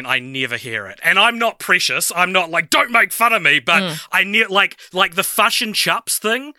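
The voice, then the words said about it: New Zealand accent. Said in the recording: “that's just your accent, but I love it... Probably the best accent in the world... the New Zealand accent”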